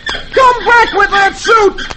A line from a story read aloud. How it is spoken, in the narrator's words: he yells